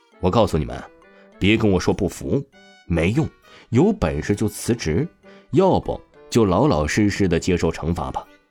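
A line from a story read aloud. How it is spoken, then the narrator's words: Sneering, scornful. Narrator (Chinese): 那陈庆冷笑了起来，极为蔑视唐东东和黄鑫的出声道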